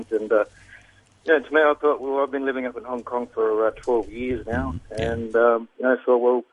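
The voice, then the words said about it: Australian accent. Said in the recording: “I've got an Australian accent”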